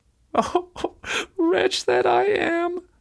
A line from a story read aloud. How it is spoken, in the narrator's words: sighed she